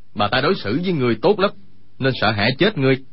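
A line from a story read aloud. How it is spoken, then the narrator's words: Farmer shouting loudly. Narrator (Vietnamese): Người nông phu cao giọng quát lên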